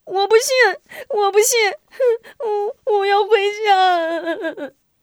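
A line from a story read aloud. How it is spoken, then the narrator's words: Frightened wailing. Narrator (Chinese): 贾小娇 吓得 大哭大闹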